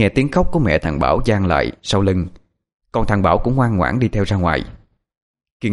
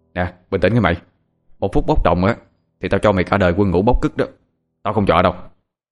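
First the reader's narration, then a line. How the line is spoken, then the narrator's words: Stern, through gritted teeth. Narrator (Vietnamese): Thằng Hoàng cũng sợ thằng Bảo đang nóng sẽ làm chuyện không kiềm chế, cho nên gằn giọng nói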